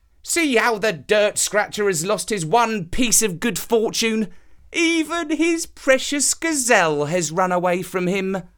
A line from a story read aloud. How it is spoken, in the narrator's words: The villagers mocked him, saying